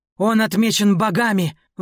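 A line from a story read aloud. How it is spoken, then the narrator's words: Reverent shout. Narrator (Russian): выкрикнул кто-то с благоговением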